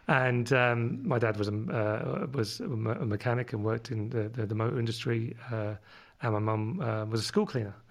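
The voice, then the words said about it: London accent. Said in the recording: “my London accent”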